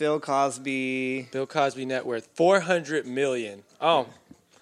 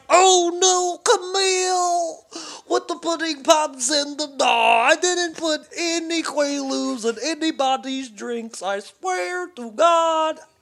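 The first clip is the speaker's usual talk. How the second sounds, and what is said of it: Imitates another person's voice. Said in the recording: “This is this is my impression after he heard the verdict.”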